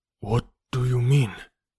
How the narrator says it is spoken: He whispered in an affrighted voice, so low that I could scarcely hear him

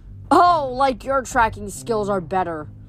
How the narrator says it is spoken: Thalia growled

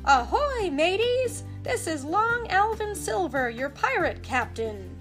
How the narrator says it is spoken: shouted

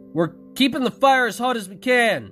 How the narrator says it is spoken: Jacob yelled back

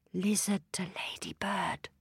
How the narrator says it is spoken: she whispered

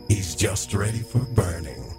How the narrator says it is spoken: said the man, with a growl of triumph

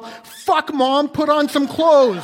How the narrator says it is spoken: Colin's immediate reaction was to yell

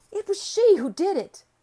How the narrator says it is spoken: I cried

